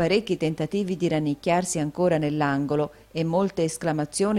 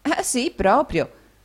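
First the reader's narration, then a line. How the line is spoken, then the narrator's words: Laughing reply. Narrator (Italian): rispose ridendo l'amica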